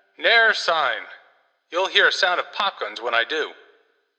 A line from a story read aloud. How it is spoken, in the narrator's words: The cabman shouted back